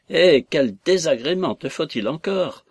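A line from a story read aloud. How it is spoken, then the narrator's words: Shouting at top of voice. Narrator (French): s'écria-t-il à tue-tête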